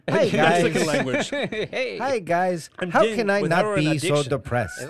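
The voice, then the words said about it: Put-on South American accent. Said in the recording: “your voice... you can pick the language and dialect?... Frank should be like the South American...”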